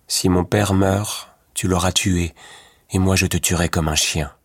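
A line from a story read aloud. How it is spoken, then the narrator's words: Said in a grim voice. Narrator (French): dit Louis Cornbutte d'une voix sombre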